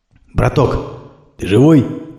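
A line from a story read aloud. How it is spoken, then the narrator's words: Quiet fearful question. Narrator (Russian): тихо спросил, боясь ничего не услышать в ответ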